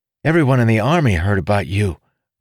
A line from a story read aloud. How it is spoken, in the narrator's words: Wren said eagerly